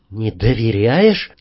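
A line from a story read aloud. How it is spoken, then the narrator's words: Quiet question. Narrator (Russian): тихо спросил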